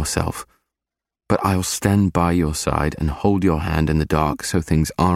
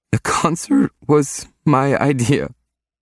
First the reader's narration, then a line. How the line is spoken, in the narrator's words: she choked out